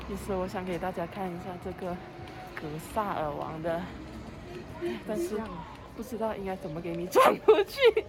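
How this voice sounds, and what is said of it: Speaking very quietly. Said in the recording (Chinese): “我们现在就是讲话很小声”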